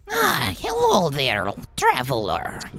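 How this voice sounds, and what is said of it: Goblin character voice with fantasy accent. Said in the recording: “he's an Irisinian accented goblin”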